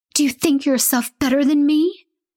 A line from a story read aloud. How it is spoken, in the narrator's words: cries mockingly, but all that comes out is a frenzy of barks